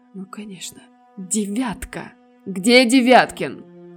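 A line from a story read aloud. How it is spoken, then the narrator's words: Exclaimed. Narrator (Russian): Воскликнул он вслед за Штерном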